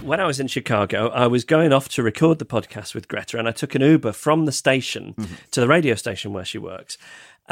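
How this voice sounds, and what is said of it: British accent. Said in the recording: “he hears my British accent”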